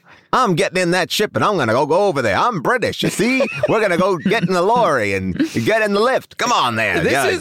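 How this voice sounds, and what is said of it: Put-on 1940s mid-Atlantic British accent. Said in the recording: “a 1940s accent and a British accent were close enough ... A 1940s American accent? ... a mid-Atlantic?”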